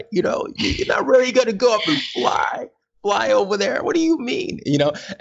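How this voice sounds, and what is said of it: Old-time American presidential accent. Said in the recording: “I don't know why I had that accent. I think I was going like for one of those old time presidents. ... that was like an old time accent”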